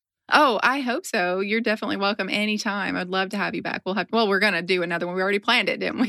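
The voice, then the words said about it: Smooth, engaging radio-like voice. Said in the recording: “your voice sounds like butter ... she sounds like butter ... that's a podcast voice ... you have a good voice. Like, it's very smooth. It's engaging.”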